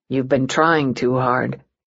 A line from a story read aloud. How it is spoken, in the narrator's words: he murmured to Martella